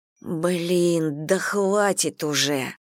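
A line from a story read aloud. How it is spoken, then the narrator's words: Groaning. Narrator (Russian): простонала Элли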